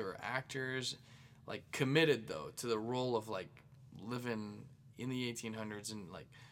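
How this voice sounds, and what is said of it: Usual voice. Nothing is said of it.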